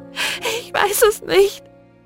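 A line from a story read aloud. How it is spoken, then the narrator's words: Sobbing. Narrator (German): schluchzte sie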